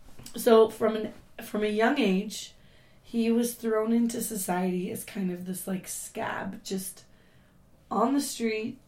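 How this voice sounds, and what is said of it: Hoarse, strained voice. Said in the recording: “I've lost my voice, if you can't tell.”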